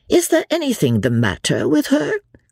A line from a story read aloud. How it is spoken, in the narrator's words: cried